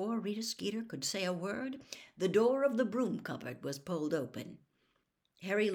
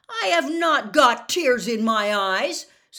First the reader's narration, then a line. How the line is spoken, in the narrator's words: said Harry loudly